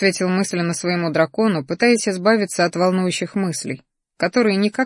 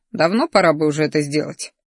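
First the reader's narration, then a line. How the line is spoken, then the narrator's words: Displeased grumble. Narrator (Russian): Недовольно проворчал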